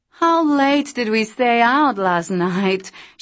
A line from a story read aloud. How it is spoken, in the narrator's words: slurred in Italian